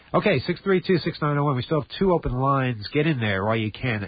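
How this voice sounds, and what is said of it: Congested voice, has a cold. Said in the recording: “I have a cold”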